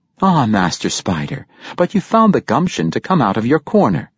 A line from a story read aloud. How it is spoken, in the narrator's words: she said